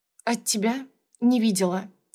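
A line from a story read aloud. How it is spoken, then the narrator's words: Hoarse reply. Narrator (Russian): ответила хрипло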